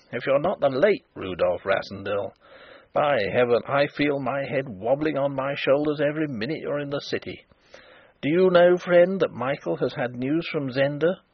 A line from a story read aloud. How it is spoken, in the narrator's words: observed Sapt grimly